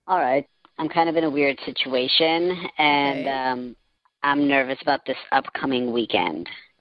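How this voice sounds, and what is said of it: Electronically altered disguised voice. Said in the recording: “our voice changer is on. You're now the mass speaker.”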